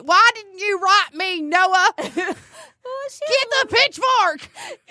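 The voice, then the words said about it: Exaggerated country accent. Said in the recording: “that was so country ... I don't think it was that much of an accent. ... It is now.”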